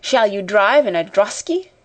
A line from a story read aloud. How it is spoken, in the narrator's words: cried another